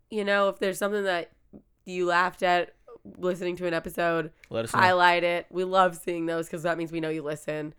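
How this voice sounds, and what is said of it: Raspy voice. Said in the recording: “I apologize for my raspy voice.”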